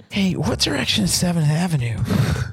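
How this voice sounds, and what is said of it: Imitates another person's voice, badly. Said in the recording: “That was a terrible Vince Vaughn impression. ... But an even worse Owen Wilson.”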